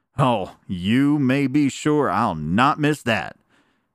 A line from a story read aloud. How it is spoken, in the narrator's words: exclaimed Mr